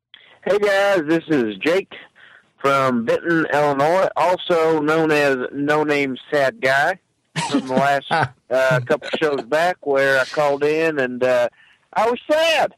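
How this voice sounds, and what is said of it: Funny regional accent. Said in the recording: “the guy with the awesome, funny accent.”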